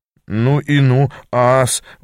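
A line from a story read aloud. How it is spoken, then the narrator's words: Strained stammer. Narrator (Russian): выдавил, запинаясь я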